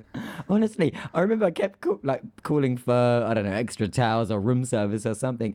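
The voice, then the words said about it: British accent. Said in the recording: “the British accent sounds on steroids in the US ... the accent that is my everyday accent that I have”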